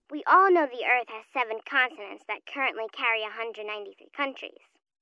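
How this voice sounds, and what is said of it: Young child's voice. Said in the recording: “You sound so young.”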